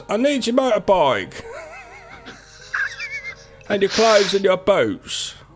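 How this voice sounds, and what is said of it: Imitates another person's voice. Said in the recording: “I'm going to do it in a Michael Caine voice.”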